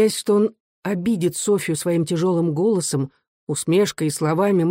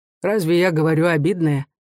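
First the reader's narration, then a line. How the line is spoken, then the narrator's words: Dry question. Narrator (Russian): Софья сухо спросила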